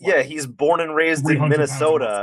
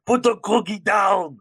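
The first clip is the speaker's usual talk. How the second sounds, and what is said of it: Impression with Austrian accent. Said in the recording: “he sounds like Arnold Schwarzenegger... He has the Austrian accent... He talks like this.”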